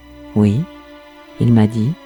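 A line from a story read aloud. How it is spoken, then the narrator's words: Widow, calm reply. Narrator (French): a répondu calmement la veuve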